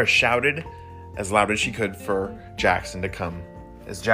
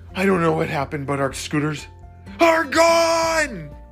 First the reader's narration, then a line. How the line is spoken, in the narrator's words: Jackson shouted